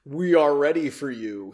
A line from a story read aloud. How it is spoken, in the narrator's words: said in a deep voice